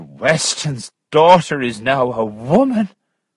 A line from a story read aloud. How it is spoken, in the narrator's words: cried the barber